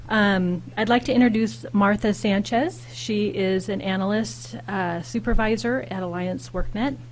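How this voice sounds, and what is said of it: Hoarse, fading voice. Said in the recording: “I'm losing my voice. There was a lot of yelling in my household last night”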